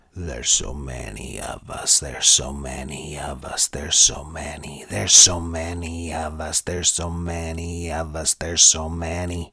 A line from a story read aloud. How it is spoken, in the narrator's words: growls out